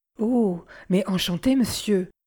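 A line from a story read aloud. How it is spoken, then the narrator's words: Stammering. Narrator (French): balbutia-t-elle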